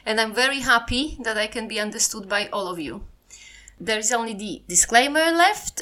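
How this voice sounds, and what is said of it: Polish accent in English. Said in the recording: “my Polish accent is not as bad as I thought”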